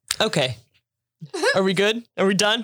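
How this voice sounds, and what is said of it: Stern mom voice. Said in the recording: “That was a mom voice”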